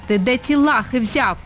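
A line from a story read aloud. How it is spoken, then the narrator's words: Barking snap. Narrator (Ukrainian): гаркнула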